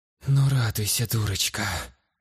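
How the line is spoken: Woman's exasperated muttering. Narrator (Russian): в сердцах пробормотала женщина

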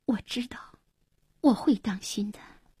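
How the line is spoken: Soft, tearful. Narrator (Chinese): 黄英默然，眼里闪着泪光，轻声说

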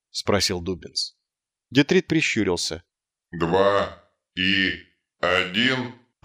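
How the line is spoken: Uncertain. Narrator (Russian): произнес он неуверенно

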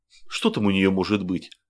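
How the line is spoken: Displeased reply. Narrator (Russian): по-прежнему недовольным тоном ответил лейтенант

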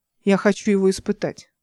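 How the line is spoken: Captain's commanding tone. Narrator (Russian): приказным тоном заявил капитан Нейба

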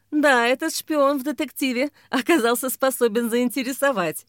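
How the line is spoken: Laughing. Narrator (Russian): Ксения засмеялась

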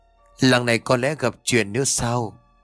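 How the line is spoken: Sighing. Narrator (Vietnamese): Cậu thở dài

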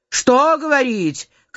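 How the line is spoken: Shout, thin man. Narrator (Russian): крикнул худощавый

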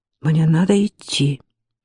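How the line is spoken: Mumbling aloud. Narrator (Russian): Дини вслух пробормотал

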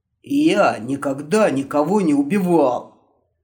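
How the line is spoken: Sincere hoarse rasp. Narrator (Russian): совершенно искренне прохрипел вояка

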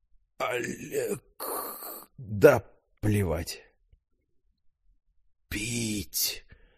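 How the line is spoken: Exhaled words. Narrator (Russian): Наконец выдохнул он

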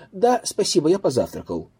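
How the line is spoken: Plain. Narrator (Russian): ответил я

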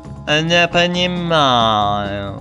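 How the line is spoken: Purring cat. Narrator (Russian): мурлыкнула кошка

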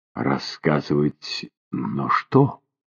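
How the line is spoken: Soft question. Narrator (Russian): мягко спросила она

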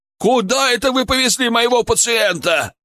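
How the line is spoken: Yelling. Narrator (Russian): орал Ярасов

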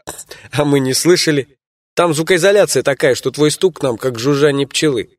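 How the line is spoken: Laughing. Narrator (Russian): посмеялся я

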